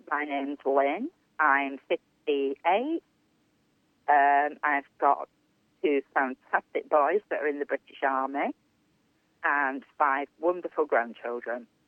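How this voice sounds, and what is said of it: Regional accent, not posh English. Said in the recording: “I hope you can understand my accent. I don't sound like the Queen, and I don't sound like anybody from Harry Potter.”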